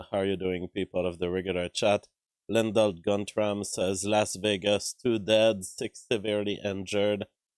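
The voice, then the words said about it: Low, weak voice from a cold. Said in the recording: “I have a low voice today ... My voice is weak ... a cold, I guess. My voice has gotten cold.”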